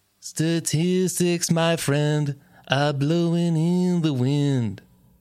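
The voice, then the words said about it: Imitates another person's singing voice. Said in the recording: “That's a very good Bob Dylan impression.”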